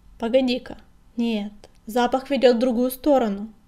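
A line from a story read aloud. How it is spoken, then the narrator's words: Barked. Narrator (Russian): рявкнул черный коготь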